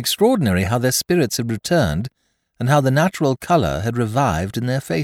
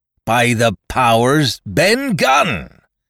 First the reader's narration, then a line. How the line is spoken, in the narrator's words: roared Silver